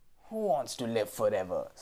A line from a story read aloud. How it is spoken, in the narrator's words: sneered the rat